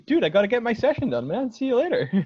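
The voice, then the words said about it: Pretty good put-on American accent. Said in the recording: “That's pretty good American accent right there.”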